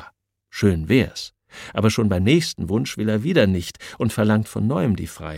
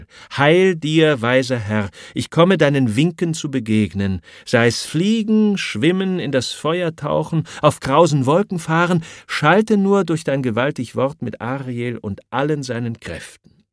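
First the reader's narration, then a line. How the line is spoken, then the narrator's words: Calling out. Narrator (German): ruft Ariel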